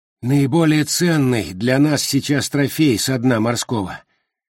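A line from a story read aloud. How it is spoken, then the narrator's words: Breathless wheeze. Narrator (Russian): просипел еще толком не отдышавшийся Джо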